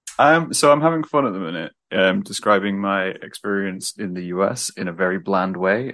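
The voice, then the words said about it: British accent. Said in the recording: “I went to Lincoln University in the UK... that's where I'm originally from... Hence the accent.”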